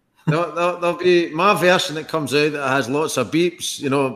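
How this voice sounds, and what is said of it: Strong regional accent. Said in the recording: “you won't need the subtitles for ... accent ... Do you want the version with subtitles or without subtitles? Do you want the Gaelic version?”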